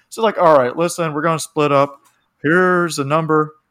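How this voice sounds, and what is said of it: Imitates a cartoon character's voice. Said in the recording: “accent. Sorry to sound like Hank Hill.”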